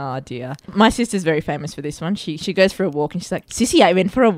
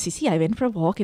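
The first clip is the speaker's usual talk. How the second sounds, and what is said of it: Put-on accent. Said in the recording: “I love that you speak in accent when you do that.”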